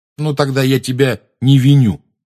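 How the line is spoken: Angry declaration. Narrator (Russian): сердито заявил Рон

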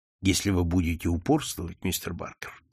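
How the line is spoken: Quiet. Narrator (Russian): тихо сказал инспектор

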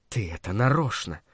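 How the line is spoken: Hiss. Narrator (Russian): прошипела она

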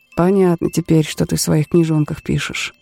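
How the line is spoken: Muttering. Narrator (Russian): пробормотал Тэ

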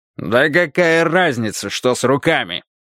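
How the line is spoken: Barking. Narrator (Russian): рявкнул Карвер

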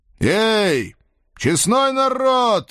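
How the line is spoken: Loud shout. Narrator (Russian): громко крикнул я

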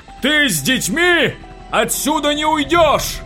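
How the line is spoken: Fanatic screaming over noise. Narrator (Russian): Завопил фанатик, перекрывая грохот

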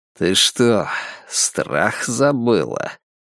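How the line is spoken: Muttered. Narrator (Russian): пробормотал он

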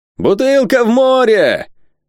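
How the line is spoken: Sailor's shout. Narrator (Russian): матрос, стоявший на носу корабля, закричал

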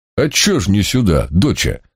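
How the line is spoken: Booming in Kuban accent. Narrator (Russian): на кубанский, как мне казалось, манер прогудел я

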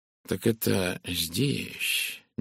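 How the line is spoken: Quiet question. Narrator (Russian): негромко спросил он

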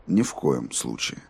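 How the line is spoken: Even level voice. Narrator (Russian): ровным голосом ответил Роланд

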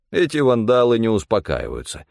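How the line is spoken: Snorted. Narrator (Russian): хмыкнул Стефан

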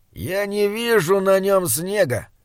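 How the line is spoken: Gloomy. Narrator (Russian): мрачно ответил Слудик

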